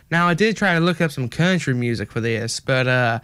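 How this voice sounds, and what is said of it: Put-on country accent. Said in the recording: “I'm doing a pretty good country accent... I do think my country accent is, you know, one of my better accents”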